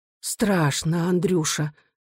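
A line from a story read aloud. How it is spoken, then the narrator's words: Quiet frightened exclamation. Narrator (Russian): тихо воскликнула мать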